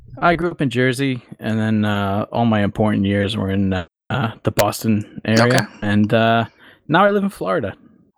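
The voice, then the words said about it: Mixed New Jersey and Boston accent. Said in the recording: “Jersey Boston mix ... it's definitely a ... accent”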